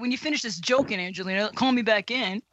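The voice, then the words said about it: Impression of a colleague. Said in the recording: “my Matt Bianco impersonation”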